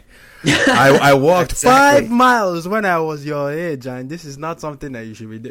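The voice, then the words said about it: Nigerian parent accent impression. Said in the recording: “that's a really good Nigerian accent”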